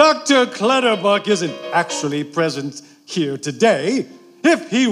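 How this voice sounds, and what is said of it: Usual voice. Nothing is said of it.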